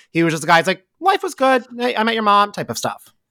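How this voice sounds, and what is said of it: Impression of a man's voice. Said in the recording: “That was a very good impression of Tom.”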